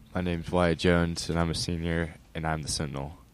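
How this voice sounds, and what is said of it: Deep radio-style voice. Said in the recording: “radio voice. You got that deep voice.”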